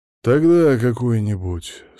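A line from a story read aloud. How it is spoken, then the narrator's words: Tired. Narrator (Russian): сказал он устало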